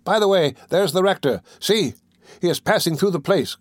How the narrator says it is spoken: cried one of those in the window

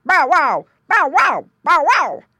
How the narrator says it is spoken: barked Dog

